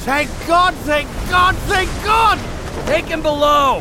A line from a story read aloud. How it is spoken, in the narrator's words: shouted